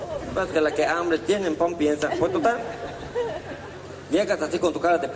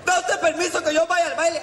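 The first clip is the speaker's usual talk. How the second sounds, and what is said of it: Shouting. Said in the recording (Spanish): “¿A quién le estás gritando”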